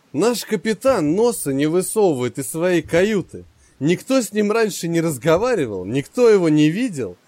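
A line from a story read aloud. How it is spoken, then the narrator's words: Laughing. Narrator (Russian): рассмеялся Воробей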